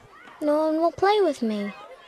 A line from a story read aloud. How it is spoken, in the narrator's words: Anna said, looking up sadly at Maggie